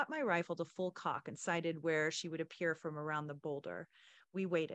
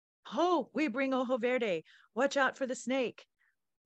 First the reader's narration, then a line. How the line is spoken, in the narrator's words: a voice above us yelled